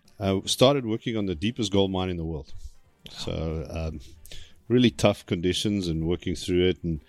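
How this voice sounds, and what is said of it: South African accent. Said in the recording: “I grew up in South Africa, hence the accent. I haven't been able to shake it.”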